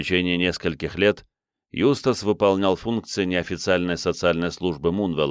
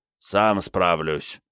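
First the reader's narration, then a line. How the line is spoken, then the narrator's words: Grumbled. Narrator (Russian): тот лишь проворчал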